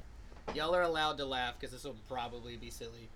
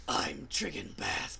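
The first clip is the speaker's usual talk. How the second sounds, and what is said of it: Raspy, gravelly character voice. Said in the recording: “I'm gonna try a voice here. I'm dragonborn, so I feel like I should have like a ... Raspy voice ... A gravelly ... Voice ... Batman”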